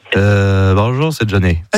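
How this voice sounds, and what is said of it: Nasal imitation of another person's voice. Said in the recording (French): “imitation de Johnny ... C'est Johnny qui parle du nez ... qui est enrhumé, quoi.”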